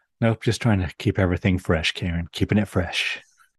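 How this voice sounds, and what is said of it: Quick, breathy Marilyn Monroe-like voice. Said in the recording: “trying my coffee talk voice ... It's quicker and breathier. You're going back to the Marilyn Monroe.”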